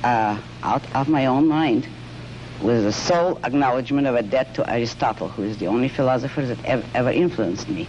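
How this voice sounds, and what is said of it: Russian accent. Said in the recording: “You have an accent which is... Russian.”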